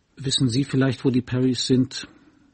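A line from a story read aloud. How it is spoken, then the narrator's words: Murmuring. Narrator (German): murmelte sie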